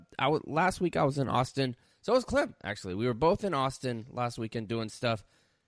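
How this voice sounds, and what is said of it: Rough, sick-sounding voice. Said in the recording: “My voice is kind of fucked up ... I got sick”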